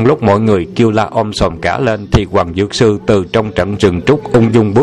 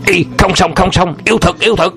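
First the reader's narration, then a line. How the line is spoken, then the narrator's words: Terrified shouting. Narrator (Vietnamese): Thường thông và đám thủ hạ không khỏi kinh hãi la lên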